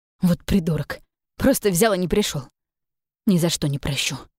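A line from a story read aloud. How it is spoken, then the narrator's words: Indignant exclamation. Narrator (Russian): Возмущенно воскликнула она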